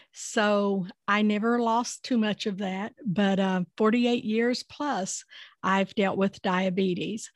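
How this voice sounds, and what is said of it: Tennessee-Appalachian Southern accent. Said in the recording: “this accent is in the middle of Nashville, Tennessee, and the Appalachia part of it originated in West Virginia”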